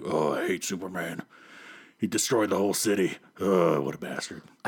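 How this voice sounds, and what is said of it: Imitates another person's voice. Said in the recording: “I can hear your butt chin in that impression. That's really good.”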